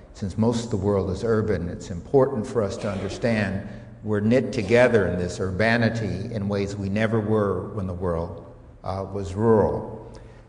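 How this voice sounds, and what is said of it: Strong American accent. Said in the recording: “this rather strong American accent ... it's important for me to have an American accent”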